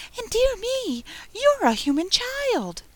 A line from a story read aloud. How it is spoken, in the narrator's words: it cried out in a voice of delight